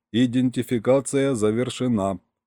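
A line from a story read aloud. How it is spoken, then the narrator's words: Flat monotone machine voice. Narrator (Russian): подтвердил корабль таким же монотонным тоном, каким с нами поначалу разговаривал и Серега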